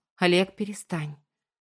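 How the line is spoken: Tired sighing plea. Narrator (Russian): Устало вздохнув, попросила

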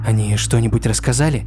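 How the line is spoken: Quiet question. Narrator (Russian): тихо спросила Флориан

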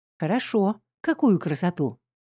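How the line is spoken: Strained calm. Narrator (Russian): Я старалась сдерживаться и говорить спокойно

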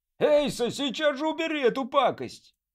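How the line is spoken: Yell. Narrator (Russian): заорал

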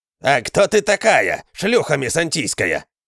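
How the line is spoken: Growling villager. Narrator (Russian): зарычал тот селянин, который заговорил вторым

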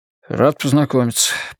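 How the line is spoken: Mumbled. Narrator (Russian): пробормотал он

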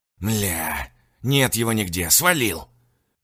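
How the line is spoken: Growling. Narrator (Russian): прорычал эвакуаторщик

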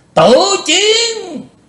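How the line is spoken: Roaring like a demon. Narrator (Vietnamese): Lý Vân Hạo gầm to như quỷ giống

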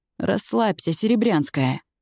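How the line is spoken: Lazy, offhand. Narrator (Russian): лениво бросает

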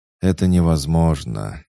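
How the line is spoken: Heavy sigh. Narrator (Russian): тяжело вздохнул Дэниел

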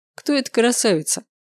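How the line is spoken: Mocking question. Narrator (Russian): Насмешливо поинтересовался Максимилиан

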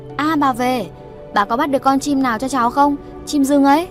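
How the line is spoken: Excited child's cry. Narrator (Vietnamese): Một cái thân người nhỏ thó chạy nhanh thoăn thoắt, chạy về phía bà Chắn reo lên nói

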